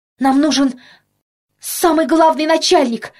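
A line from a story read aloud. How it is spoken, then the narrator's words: Desperate yell. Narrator (Russian): отчаянно заорал Петька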